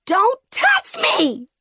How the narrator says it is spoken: Wren shrieked

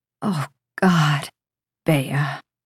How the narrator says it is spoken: Samson says, his voice strained and deep

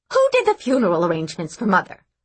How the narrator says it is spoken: snapped Bess

